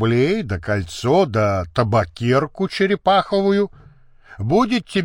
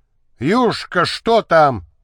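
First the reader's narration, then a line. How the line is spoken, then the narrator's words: Shouting. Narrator (Russian): крикнул супруг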